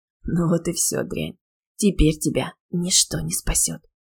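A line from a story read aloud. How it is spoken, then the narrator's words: Hissing. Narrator (Russian): практически прошипел он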